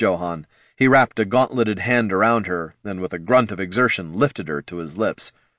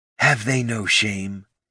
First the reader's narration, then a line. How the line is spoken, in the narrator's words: Ashurzu muttered to Jorik